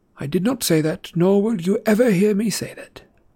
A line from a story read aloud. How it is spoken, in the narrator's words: Dumbledore replied calmly